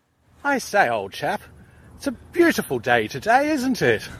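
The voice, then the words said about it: Put-on posh English accent. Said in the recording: “I could do a Pommy accent”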